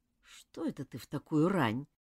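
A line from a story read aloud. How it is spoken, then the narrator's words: Sleepy question. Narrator (Russian): сонно спросила Нора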